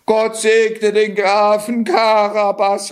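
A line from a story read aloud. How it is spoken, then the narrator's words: Woman calling out. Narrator (German): rief eine Frau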